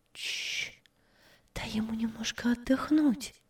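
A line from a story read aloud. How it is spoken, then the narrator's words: Whisper. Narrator (Russian): шепнула Анна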